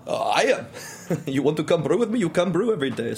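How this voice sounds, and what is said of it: Put-on German accent, sounding Yiddish. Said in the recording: “this very stout German man ... your accent sounds Yiddish”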